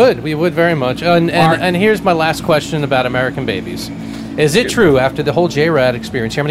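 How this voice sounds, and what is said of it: Usual voice. Nothing is said of it.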